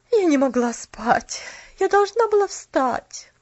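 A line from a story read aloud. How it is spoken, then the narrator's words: Tired sigh. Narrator (Russian): Устало вздохнула тетя Поля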